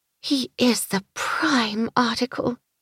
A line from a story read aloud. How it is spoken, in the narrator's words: Daisy murmured